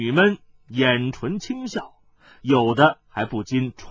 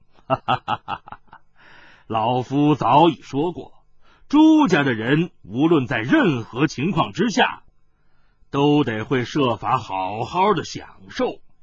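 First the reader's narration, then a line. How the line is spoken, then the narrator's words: Hearty laughter. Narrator (Chinese): 叶帝哈哈的笑道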